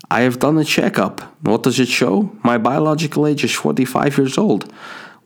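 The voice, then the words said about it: Put-on Dutch accent. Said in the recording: “I'm going to do a sweet Dutch accent here, aren't I?”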